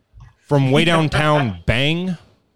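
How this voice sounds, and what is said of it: Imitates a sportscaster's catchphrase voice. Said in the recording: “I'll do the voice on this one too ... That is Olbermann ... Do the voice again? ... I've never heard a human talk like that.”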